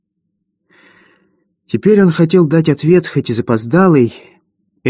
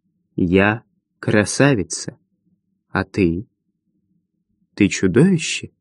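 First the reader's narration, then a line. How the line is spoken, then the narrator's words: Quiet young girl. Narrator (Russian): умудренная опытом, 13-летняя юность тихо произнесла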